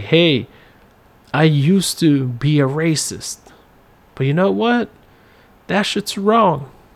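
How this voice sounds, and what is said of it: Put-on Southern white accent. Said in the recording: “I tried to make that sound like a southern accent ... put on a southern white accent”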